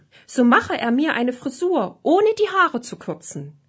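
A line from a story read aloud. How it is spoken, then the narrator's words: Knight calling out. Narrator (German): rief der Ritter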